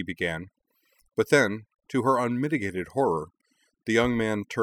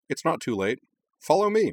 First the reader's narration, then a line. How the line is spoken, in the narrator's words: he added cheerfully